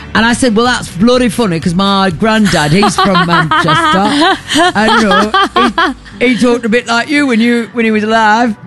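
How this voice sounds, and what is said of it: Put-on Northern English accent. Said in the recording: “I don't think that's a Manchester accent. ... No, is this is bloody Manchester. ... This is a bloody Northern accent.”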